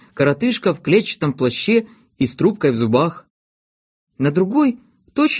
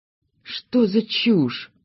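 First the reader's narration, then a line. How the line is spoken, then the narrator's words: Puzzled mutter. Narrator (Russian): пробормотал в недоумении Скуперфильд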